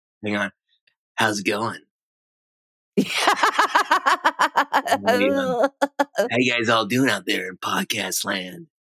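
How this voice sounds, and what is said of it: DJ-style radio announcer voice. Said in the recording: “There's that radio voice. That's what the people want.”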